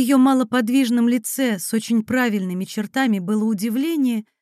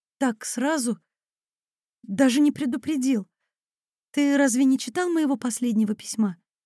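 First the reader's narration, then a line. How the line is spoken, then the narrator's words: Woman muttering. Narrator (Russian): бормотала женщина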